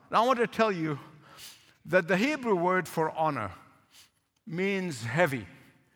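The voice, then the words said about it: Speaks with a noticeable accent. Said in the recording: “I know sometimes my accent might get you mixed up ... Don't let my accent confuse you.”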